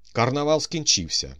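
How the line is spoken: Shouting. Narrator (Ukrainian): викрикнув

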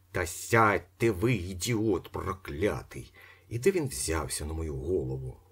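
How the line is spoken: Hissing. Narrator (Ukrainian): зашипів Остап

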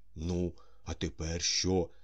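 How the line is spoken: Nervous, frightened question. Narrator (Ukrainian): запитав Балаганов, злякано посміхаючись

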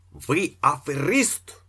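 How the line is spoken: Shouted. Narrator (Ukrainian): крикнув Іполит Матвійович

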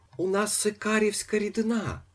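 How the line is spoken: Sad shout. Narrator (Ukrainian): кричав сумним голосом

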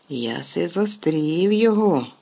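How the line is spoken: Hoarse rasping. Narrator (Ukrainian): хрипів Гегріт

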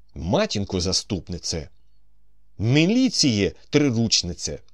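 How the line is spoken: Breathless exclamation. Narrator (Ukrainian): вигукнув Остап, важко дихаючи

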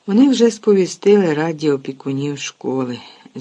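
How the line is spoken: Unhappy sigh. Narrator (Ukrainian): зітхнув нещасний Гегріт

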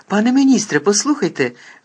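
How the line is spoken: Exclaimed. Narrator (Ukrainian): вигукнув Гаррі

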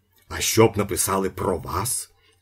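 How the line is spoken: Angry question. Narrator (Ukrainian): сердито запитав Вороб'янінов

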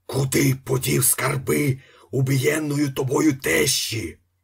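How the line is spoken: Hoarse shout. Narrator (Ukrainian): закричав охриплим голосом

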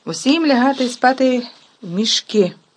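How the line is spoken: Shouted. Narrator (Ukrainian): крикнув Персі

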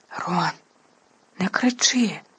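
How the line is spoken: Anxious whisper. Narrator (Ukrainian): тривожно зашепотіла Герміона

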